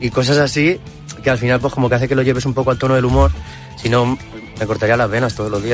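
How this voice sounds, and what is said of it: Usual voice. Nothing is said of it.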